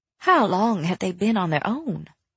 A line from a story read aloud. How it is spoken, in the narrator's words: Rainy asked quietly